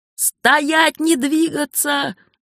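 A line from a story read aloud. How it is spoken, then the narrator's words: Wizard yelling. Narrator (Russian): заорал маг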